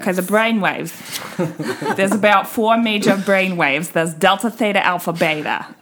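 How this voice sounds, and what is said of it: Put-on accent. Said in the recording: “Break out of the accent because I can't keep it up.”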